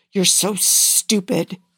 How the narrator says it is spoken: he hisses finally

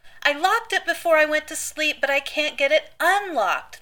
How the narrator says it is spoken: the little girl wails and breaks into a fresh wave of tears

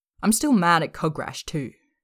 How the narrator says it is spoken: she blurts out again

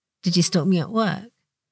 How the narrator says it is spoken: He whispers

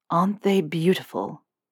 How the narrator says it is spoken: Draco whispers

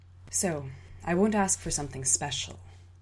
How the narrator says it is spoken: I murmured as my stomach lurched alongside the waves beneath me

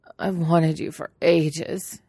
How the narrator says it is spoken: he whines, his voice breaking

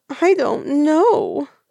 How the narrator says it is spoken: Huaisang wails

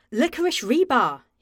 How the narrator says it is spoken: exclaimed

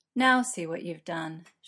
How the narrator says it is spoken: sighs

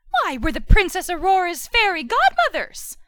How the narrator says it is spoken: Flora said brightly

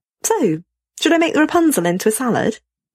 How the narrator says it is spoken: Matt asks cheerfully

